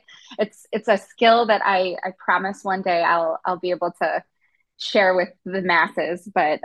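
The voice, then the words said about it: Thick Chicago Midwestern accent. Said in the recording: “my thick Chicago Midwestern accent”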